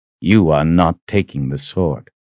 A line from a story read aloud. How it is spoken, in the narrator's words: he said flatly